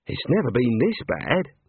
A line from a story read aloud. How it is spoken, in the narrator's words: Neelette muttered